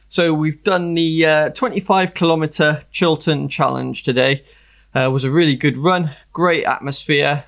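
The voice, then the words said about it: Slightly out of breath, exhausted voice. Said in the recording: “I'm feeling really, really exhausted right now. You can tell I'm still slightly out of breath a couple of hours later.”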